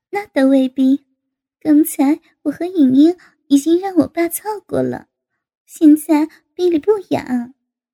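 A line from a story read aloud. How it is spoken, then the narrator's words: Laughing. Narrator (Chinese): 高杰笑道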